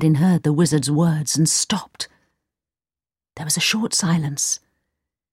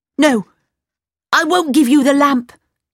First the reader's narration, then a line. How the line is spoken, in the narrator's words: he cried